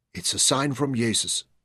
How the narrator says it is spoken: Louisa whispered to herself through chattering teeth

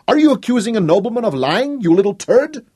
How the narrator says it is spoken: Hop drew another full breath, took his fragile courage in both hands, and shouted again

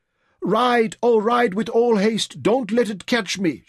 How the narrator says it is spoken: screamed

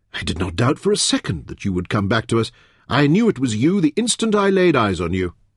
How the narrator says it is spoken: Hilto exclaimed loudly

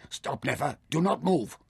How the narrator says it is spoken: Taita sprang to his feet and said quietly but urgently

